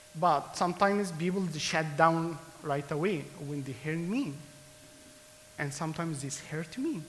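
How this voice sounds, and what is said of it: Non-native English accent. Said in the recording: “sometimes I have accent. Why? Because English is not my first language.”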